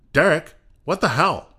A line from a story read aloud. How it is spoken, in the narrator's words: Craig exclaimed at the sight before him